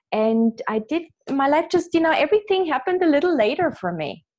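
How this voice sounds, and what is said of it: Austrian-accented English. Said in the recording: “I have an accent, as you can hear. I was born in Vienna, Austria”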